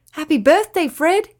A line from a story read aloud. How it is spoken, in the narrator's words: his friends cried out